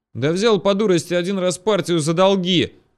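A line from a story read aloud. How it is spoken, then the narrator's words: Shout in the face. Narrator (Russian): крикнул мне в лицо угорь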